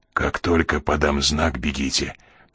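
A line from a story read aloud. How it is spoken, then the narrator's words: Whispered. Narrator (Russian): прошептал Коридон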